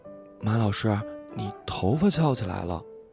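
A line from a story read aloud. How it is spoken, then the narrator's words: Whisper in ear. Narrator (Chinese): 他低声在我耳边说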